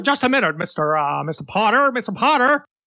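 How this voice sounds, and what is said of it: Imitates another person's voice. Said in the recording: “you do a very good, you know, young Jimmy Stewart impersonation ... Yes, beautiful. So well done.”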